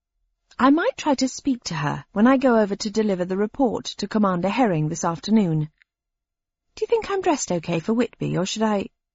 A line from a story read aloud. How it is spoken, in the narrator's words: My voice had trailed off, because something was wrong